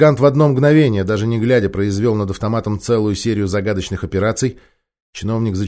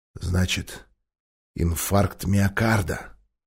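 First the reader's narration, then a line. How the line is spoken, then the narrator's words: Giant's menacing growl. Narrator (Russian): угрожающе прорычал гигант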